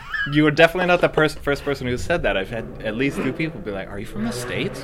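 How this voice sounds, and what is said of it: Slight accent, sounds American, Brooklyn-like. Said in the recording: “you've got a bit of an accent. just a little bit of one. ... You have a Richmond accent. ... I do have a Richmond accent. ... "You sound like you're from Brooklyn."”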